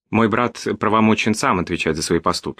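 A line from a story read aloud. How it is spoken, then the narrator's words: Calm. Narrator (Russian): сказал спокойно Васко да Гама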